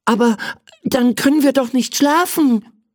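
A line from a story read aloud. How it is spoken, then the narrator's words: Excited shout. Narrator (German): rief er aufgeregt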